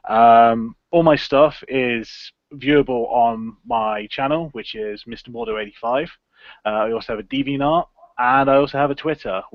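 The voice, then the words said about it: English accent. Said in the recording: “I'm from England, as you can probably guess from my accent.”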